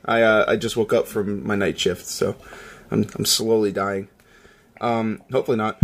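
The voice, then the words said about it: Raspy hoarse voice. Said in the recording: “I am raspy as all get out today.”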